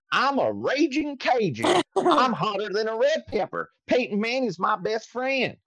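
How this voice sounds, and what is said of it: Deliberately bad Cajun accent impression. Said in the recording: “I can't do an impression of Stokely. I can't do an impression of a Cajun ... it doesn't sound like him at all”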